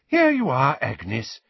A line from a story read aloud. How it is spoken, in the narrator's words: said the healer brightly